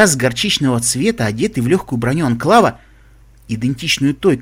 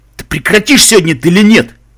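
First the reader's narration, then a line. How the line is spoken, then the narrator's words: Thundered. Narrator (Russian): прогремел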